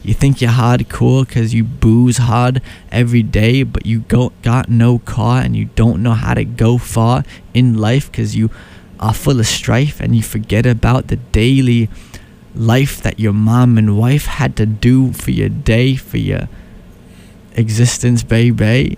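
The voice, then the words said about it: Rapping in put-on American accent. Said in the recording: “I'm rapping in my American accent cause that's all I know how to do.”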